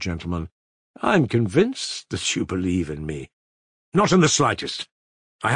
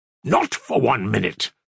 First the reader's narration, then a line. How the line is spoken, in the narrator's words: cried Ivan furiously